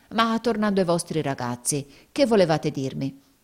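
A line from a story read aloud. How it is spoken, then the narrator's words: Exclamation. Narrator (Italian): esclamò Squeers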